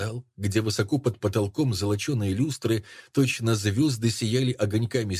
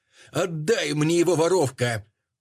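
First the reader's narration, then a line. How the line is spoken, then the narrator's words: Echoing frightening scream. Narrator (Russian): закричала страшная незнакомка так, что отозвались стены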